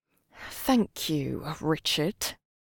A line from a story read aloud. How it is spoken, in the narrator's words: said through gritted teeth